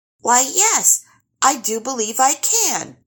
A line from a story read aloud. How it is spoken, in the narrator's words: Calvin, the happiest starling in the whole wide world, chirped